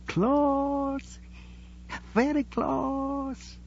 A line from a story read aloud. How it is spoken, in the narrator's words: whispered excitedly